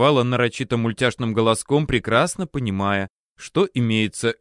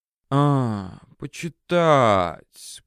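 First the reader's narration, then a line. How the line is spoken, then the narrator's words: Drawled. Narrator (Russian): протянула она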